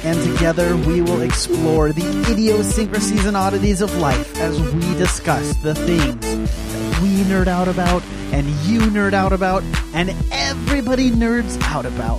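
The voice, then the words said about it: Announcer-style voice. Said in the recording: “I don't know what this voice is that you're doing ... you're doing kind of this announcery type ... It is pretty announcery ... the announcer voice”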